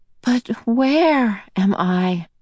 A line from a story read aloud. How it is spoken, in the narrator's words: Meg asked breathlessly, relieved to hear that her voice was now coming out of her in more or less a normal way